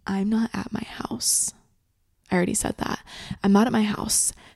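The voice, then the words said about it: Whispering. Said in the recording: “why are you fucking whispering? ... I'm kind of whispering”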